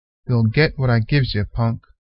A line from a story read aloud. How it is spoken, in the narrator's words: replied Unc under his breath